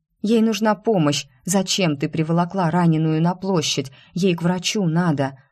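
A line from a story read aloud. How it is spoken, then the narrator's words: Groaning. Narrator (Russian): Застонала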